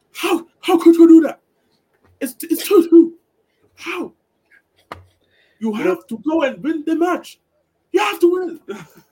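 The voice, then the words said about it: Impression of Pep Guardiola. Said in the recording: “It's a good impression, to be honest. That's a good impression.”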